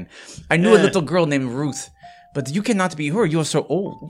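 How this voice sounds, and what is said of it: Put-on character accent, slipping. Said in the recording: “My accent's off again.”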